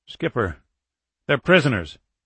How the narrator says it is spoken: Rogers blurted

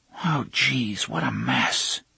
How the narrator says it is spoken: Jake whispered

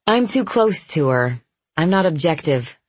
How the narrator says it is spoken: I said

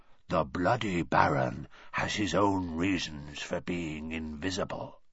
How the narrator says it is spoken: he said in a hoarse whisper

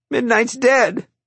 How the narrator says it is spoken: I cried

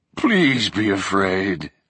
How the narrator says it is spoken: the voice moaned

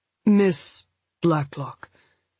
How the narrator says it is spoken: Nielsen said slowly

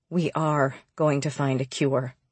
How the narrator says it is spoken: James says quietly

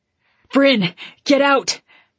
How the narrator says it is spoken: Ridley warned me frantically

